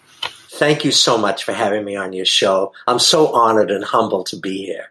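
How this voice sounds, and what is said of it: Boston accent. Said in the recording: “I'm from Boston, Massachusetts originally ... I hope you can understand the way I talk. I know some people say I have an accent”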